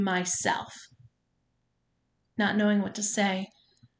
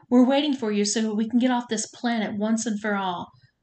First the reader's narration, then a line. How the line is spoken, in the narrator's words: Trisha yelled at me